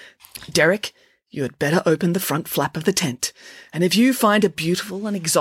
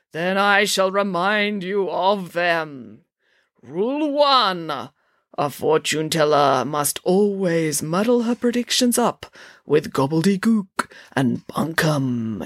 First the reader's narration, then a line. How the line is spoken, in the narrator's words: intoned Zandra